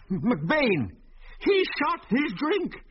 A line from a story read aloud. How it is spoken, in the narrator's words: shouted old Mose shrilly